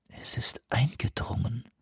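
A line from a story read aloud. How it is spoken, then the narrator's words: Whisper. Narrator (German): flüsterte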